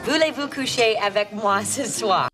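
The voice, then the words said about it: Unconvincing put-on Slavic accent in French. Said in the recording (French): “son français parfait teinté d'un délicieux accent slave ... Ouais, c'est pas vraiment le bon accent, mais ça ira.”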